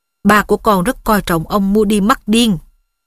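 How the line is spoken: Stern. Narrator (Vietnamese): Bà Weasley nghiêm giọng

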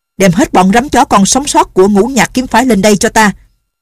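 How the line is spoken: Angry loud shout. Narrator (Vietnamese): Nhằm Ngã Hành càng nghĩ càng tức giận, lớn tiếng quát

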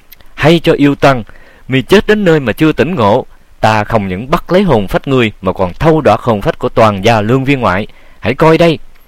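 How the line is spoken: Frightened yet blustering shout. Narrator (Vietnamese): bủng rủng tay chân, nhưng cũng làm già mà thét lên

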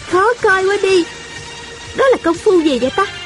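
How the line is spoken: Laughing. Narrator (Vietnamese): Thanh Thanh bật cười nói

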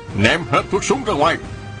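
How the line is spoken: Shouting. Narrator (Vietnamese): có người quát lên

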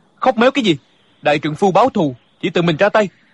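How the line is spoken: Angry. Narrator (Vietnamese): Địch dân tức giận nói

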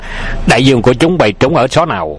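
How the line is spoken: Loud shout. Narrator (Vietnamese): Hoàng Dược Sư quát lớn

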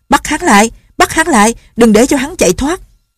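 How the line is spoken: Shouting. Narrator (Vietnamese): Lệnh Hồ Xung la lên

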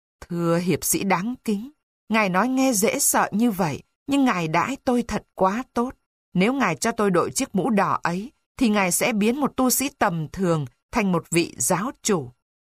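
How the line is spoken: Fake moaning plea. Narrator (Vietnamese): Anh ta giả bộ rên rỉ kêu van

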